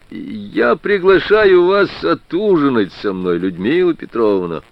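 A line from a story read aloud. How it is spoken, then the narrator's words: Cheerful. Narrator (Russian): весело сказал Прохоров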